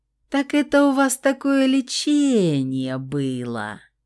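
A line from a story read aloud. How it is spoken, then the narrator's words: Meaningful drawl. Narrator (Russian): многозначительно протянула Стаська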